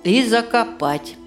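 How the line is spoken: Gloomy remark. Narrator (Russian): добавил мрачно Чулпан

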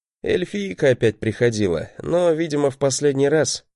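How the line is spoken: Snort. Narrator (Russian): хмыкнул я

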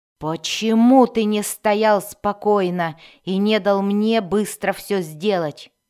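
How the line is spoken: Growled with clear disgust. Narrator (Russian): рычал Безликий с явным отвращением

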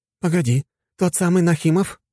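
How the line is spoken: Woman exclaiming. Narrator (Russian): воскликнула девушка лет 35

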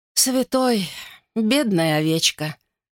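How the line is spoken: Sighing midwife. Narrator (Russian): вздохнула повитуха

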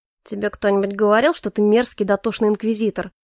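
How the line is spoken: Grumbling. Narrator (Russian): проворчал Калипсо

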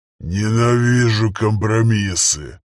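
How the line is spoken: Growling father. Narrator (Russian): прорычал отец

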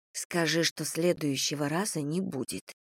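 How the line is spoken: Quiet prompt. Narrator (Russian): тихо подсказала я

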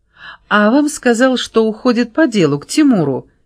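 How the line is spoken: Giggling girl. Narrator (Russian): хихикнула девица

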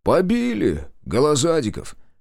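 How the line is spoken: Heavy sigh. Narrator (Russian): тяжело вздохнул Шестаков

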